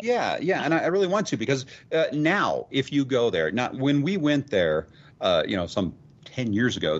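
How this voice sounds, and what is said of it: Speaks with a noticeable accent. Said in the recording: “I'm sorry you didn't understand my accent.”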